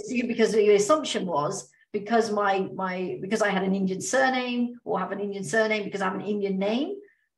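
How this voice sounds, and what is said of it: British accent. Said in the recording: “Oh, you have a British accent.”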